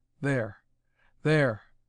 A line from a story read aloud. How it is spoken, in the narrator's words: Sykes exclaimed in awestruck tones